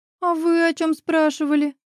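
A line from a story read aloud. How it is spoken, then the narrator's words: Sobbing, stunned. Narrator (Russian): всхлипывая, уточняет ошарашенная девушка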